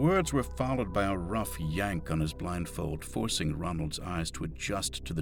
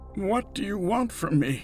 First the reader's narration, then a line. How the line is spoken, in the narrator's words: Ronald rasped, his words dissolving into the air